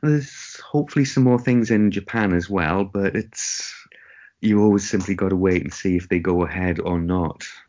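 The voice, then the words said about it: Geordie English accent. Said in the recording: “you must be one of the few Geordies”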